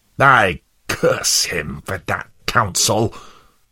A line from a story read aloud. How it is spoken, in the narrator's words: snarled Worldly Wise Man